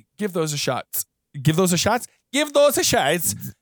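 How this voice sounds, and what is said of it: Put-on unidentified accent. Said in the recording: “what accent is this?”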